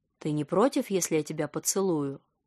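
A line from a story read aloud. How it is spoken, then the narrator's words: Low husky question. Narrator (Russian): низким хрипловатым голосом спросил он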